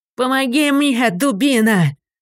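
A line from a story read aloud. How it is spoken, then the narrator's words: Straining shout for help. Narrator (Russian): закричал Нептунец, зовя помощника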